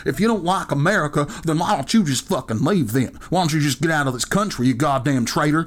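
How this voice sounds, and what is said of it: Mocking put-on hick accent. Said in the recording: “hick accent”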